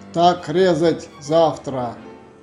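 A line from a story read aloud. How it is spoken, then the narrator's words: Shouted. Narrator (Russian): крикнул хан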